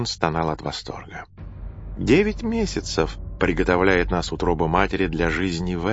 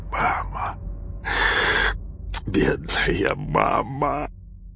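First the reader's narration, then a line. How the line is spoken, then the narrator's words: Whispering. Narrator (Russian): зашептал Нерон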